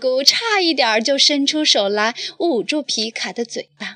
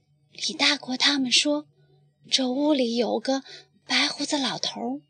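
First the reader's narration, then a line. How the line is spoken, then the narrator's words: Quiet voice. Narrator (Chinese): 他小声地说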